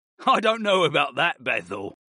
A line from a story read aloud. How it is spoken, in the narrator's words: Brayden laughed